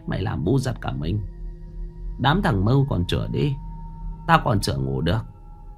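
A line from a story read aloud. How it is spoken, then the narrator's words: Sighing. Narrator (Vietnamese): Mụ thở dài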